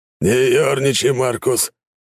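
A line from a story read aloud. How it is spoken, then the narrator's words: Heavy exhale. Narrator (Russian): тяжело выдохнул Таранов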